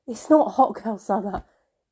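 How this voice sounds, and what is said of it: Mocking funny voice. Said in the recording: “I keep putting a funny voice on whenever I say it”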